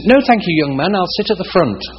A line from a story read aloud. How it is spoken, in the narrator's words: in an English accent